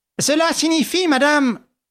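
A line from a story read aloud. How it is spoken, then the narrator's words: Vehement exclamation. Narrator (French): s'écria Ganimard dans un grand mouvement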